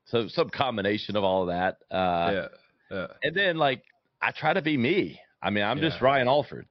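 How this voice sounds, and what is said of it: Southern American accent, good radio voice. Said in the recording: “who's this country bumpkin ... I think it's insight meets Southern charm ... I have a good radio voice”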